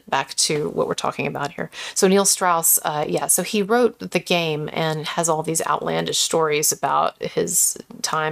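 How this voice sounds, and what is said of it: Soft, quiet speaking voice. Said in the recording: “I'm going to speak more softly because I'm keeping someone up ... I will be speaking more softly here”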